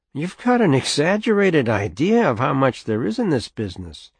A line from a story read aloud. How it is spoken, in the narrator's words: Jaime said, still playfully